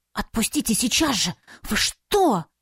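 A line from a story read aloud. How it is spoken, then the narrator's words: Hissed. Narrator (Russian): зашипела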